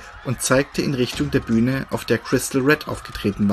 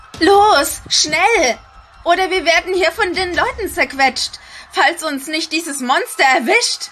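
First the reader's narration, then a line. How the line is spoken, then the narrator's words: Shouting over loud music. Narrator (German): schrie sie durch das donnernde Gewitter der stetig lauter werdenden Beats und Riffs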